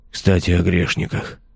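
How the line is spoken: Weak voice. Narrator (Russian): добавил он слабым голосом

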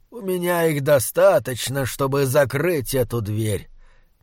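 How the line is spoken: Old man, said softly. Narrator (Russian): мягко сказал старик

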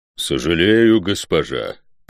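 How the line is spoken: Low booming drone. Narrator (Russian): прогудел избранный

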